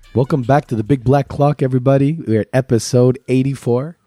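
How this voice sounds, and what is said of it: Deep, husky sick voice. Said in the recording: “Very sexy. You were like very Barry White vibes. ... Barry White riddled with chlamydia ... When they get sick”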